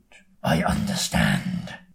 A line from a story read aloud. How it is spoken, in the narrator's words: he growls in reply